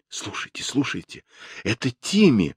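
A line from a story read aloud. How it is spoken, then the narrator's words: Exclaimed. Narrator (Russian): воскликнул Джулиан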